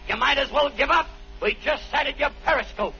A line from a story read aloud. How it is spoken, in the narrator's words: The captain yelled back